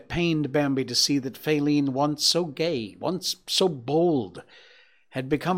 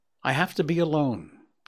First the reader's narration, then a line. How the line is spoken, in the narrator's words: he replied